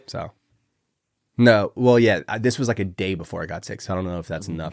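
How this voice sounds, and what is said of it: Sick, rough-sounding voice. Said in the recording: “My voice sounds terrible because I am yet again sick”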